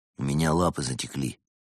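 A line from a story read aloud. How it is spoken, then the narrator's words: Quiet complaint. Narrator (Russian): тихо пожаловался Константин Евгению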